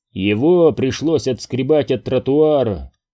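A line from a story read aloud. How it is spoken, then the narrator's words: Muttering close to ear. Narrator (Russian): пробурчал у меня над ухом Мур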